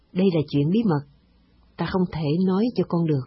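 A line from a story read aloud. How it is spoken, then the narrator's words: Master smiling. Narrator (Vietnamese): Vị linh sư mỉm cười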